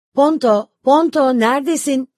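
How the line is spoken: Worried shouting. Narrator (Turkish): diye bağıran endişeli sesleri

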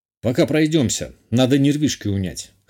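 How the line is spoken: Wry snort. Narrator (Russian): хмыкнул я

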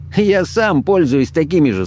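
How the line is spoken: Laughing short man. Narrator (Russian): смеясь сказал чернобородый коротышка

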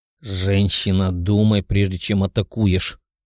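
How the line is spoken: Growled by young man. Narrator (Russian): прорычал парень

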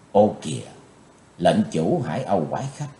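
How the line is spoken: Soft involuntary exclamation. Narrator (Vietnamese): Chí Tôn bất giác kêu khẽ

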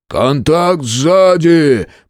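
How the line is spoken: Shout. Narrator (Russian): прокричал Грег

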